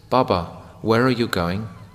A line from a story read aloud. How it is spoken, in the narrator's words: a young boy said in a sweet voice